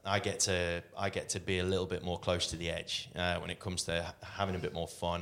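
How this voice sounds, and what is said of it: British accent. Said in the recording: “accent ... my Britishness”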